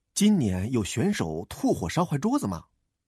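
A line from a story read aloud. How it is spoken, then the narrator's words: Whispered discussion. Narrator (Chinese): 喵卷卷和身边的大奇小声的议论着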